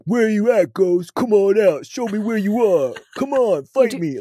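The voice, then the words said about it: Impression of Zak Bagans. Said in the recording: “You do a great impression.”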